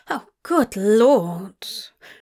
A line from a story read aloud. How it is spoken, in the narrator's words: Zira groaned in consternation